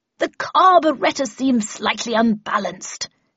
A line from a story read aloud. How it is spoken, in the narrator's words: she bellowed above the terrified screams of pedestrians